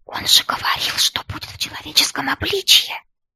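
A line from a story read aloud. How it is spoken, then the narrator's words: Whisper seeming deafeningly loud. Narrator (Russian): Мой шепот даже мне кажется оглушительно громким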